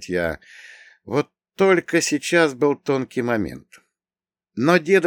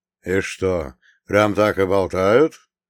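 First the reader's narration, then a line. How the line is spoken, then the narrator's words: Old man's calm question. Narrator (Russian): спокойно спросил дед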